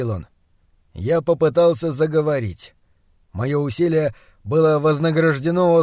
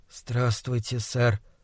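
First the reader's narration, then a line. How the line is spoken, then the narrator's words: Hoarse. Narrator (Russian): прохрипел я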